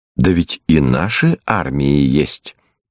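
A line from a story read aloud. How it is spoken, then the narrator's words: Calm objection. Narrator (Russian): Лиза спокойно возражала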